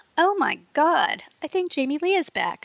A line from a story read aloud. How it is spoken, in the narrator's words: I exclaimed, covering my mouth and trying to look shocked